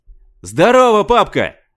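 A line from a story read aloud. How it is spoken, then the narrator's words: Yell. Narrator (Russian): завопил Скотт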